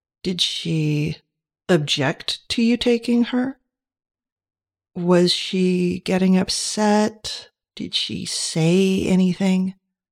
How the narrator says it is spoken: He asked the questions slowly

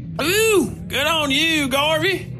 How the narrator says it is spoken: Wickliffe shouted from the table in the middle

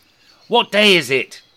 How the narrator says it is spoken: Rishi Scrooge shouted to a small boy

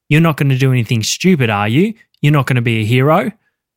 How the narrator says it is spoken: a ski-masked intruder calmly saying to him

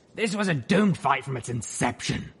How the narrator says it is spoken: Stern growled

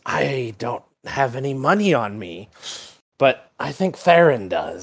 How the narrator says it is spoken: Brax hisses a little bit and just goes

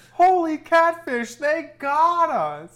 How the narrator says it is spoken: Joe groaned

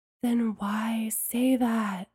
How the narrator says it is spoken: Bree hissed

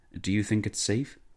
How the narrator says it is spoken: whispered

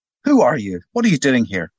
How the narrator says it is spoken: barked Mackin at last, angry with himself for being caught out

